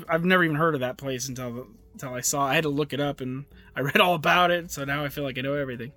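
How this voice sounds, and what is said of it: Strained, fading voice. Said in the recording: “My voice is going out.”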